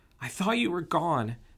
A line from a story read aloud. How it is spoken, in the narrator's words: she exclaimed